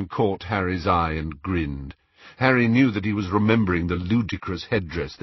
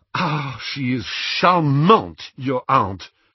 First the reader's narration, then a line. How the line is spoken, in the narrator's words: said Fleur crossly